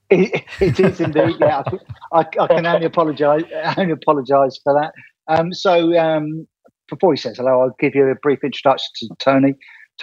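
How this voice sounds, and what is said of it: Very strong UK-style accent. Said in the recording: “I've picked up a very strong accent coming from you. Is this because the person we're interviewing is from the UK?”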